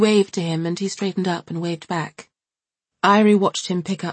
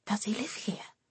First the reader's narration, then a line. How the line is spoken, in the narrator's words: whispered Irie in amazement